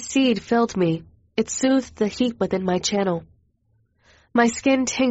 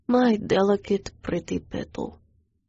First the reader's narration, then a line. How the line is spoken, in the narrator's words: Master purred, voice low